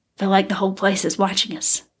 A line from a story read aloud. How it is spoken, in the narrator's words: he whispered